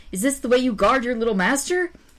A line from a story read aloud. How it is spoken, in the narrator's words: cried